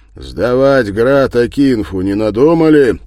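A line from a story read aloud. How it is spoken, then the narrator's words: Deliberately loud question. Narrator (Russian): Федор спросил у него нарочито громко, чтобы слышали все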